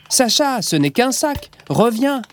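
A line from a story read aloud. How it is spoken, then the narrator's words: Mother shouting. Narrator (French): crie maman Jeanne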